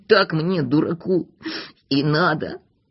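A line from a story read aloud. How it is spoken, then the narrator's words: Desperate muttering. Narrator (Russian): бормотал в отчаянии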